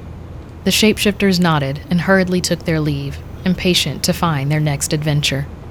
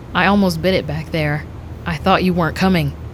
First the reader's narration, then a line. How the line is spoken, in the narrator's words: Miles said